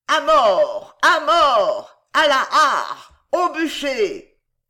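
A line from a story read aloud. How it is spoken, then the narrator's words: Savage crowd howling. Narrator (French): L'énorme hurlement funèbre se déchaîna plus violent, plus âpre, plus sauvage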